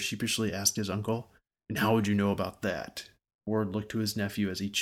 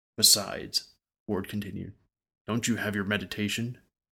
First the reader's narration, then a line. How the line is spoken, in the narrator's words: Sir sighed